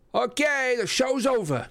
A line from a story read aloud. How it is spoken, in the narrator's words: I yelled